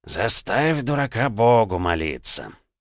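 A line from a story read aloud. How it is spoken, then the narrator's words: Grumbling. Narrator (Russian): проворчал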